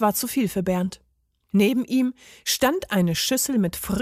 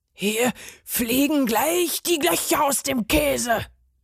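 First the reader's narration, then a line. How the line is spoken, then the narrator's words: Furious roar. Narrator (German): brüllte der Parmesan fuchsteufelswild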